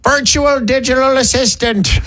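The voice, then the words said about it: Weird old man voice. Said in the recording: “Use your weird old man voice ... The voice is getting weirder.”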